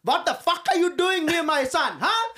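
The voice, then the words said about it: Aggressive accented voice. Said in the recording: “scared them off with his fucking accent ... how aggressive the way he spoke”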